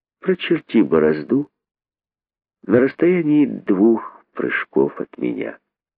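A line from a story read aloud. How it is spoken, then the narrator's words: Calm, thoughtful. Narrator (Russian): сказал задумавшийся спокойно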